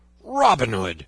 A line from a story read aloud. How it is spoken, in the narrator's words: roared he